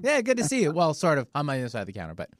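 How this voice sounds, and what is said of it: Solid radio voice. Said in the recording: “You have such a good, solid radio voice.”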